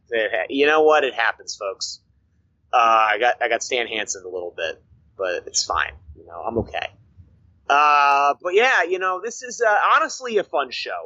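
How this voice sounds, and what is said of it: Voice sounding damaged, not great. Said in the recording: “my voice sounds not that great, it's because I took a lariat to the throat a couple weeks ago. And I'm still recovering from it a little bit.”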